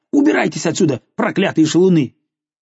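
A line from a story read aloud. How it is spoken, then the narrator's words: Angry shouting. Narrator (Russian): она напустилась на них, сердито крича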